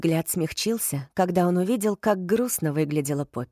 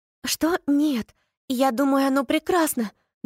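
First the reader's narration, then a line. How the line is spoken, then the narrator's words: Trembling, arguing voice. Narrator (Russian): дрожащим голосом спорила Поппи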